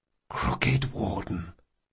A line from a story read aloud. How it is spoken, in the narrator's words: Locke whispered